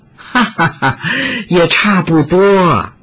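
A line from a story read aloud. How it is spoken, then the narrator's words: Woman laughing loudly. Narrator (Chinese): 美妇大笑道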